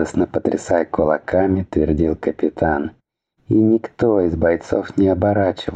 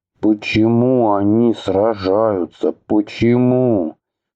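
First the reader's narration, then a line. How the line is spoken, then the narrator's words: Helpless moan. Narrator (Russian): простонал Атхи, не представляя, что ему делать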